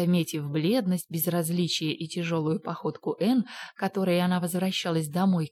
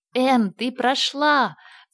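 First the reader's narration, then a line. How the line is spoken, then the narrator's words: Shouting. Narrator (Russian): закричала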